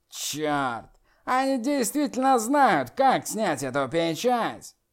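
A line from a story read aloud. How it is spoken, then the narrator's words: Demon's fierce growl. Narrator (Russian): Черный демон свирепо прорычал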